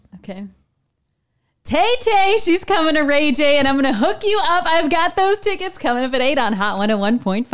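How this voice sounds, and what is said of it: Upbeat full-voiced radio DJ delivery. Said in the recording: “She puts on radio voice ... you have to be, you know, full voice, like from your diaphragm and with a smile”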